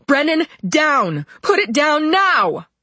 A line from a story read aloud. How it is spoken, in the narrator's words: I yelled